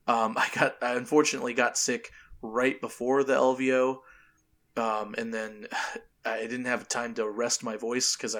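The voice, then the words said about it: Strained, hoarse voice. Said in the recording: “my voice does not sound good. It sounds a little strained. That is because I contracted some laryngitis, got a little bit of a viral throat infection”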